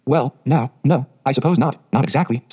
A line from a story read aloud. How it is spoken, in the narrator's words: stammered Matthew, uncomfortably driven into a corner for his precise meaning